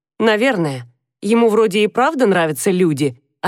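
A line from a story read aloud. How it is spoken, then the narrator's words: Plain. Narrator (Russian): ответил Адам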